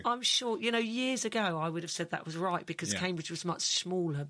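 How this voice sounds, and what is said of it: Genuine Cambridge English accent. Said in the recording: “this accent that you're listening to is a genuine Cambridge accent, with maybe, obviously, wherever my parents came from, which was probably in the country somewhere.”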